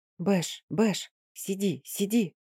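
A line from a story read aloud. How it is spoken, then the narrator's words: Angry whisper, woman. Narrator (Russian): сердитым шепотом осадила его цыганка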